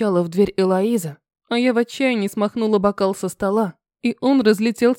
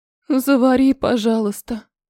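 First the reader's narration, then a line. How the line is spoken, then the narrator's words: Moaning reply. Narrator (Russian): простонала в ответ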